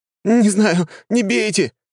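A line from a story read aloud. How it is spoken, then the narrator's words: Terrified shriek. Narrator (Russian): завизжал тот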